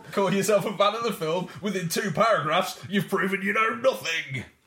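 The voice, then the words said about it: Impression of a gym-goer. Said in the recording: “doing an impression of someone at the gym”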